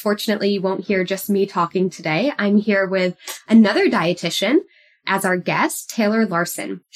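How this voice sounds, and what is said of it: Weird-sounding voice, like a cold. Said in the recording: “I apologize if my voice sounds a little weird today. I've been recovering from a bit of a cold”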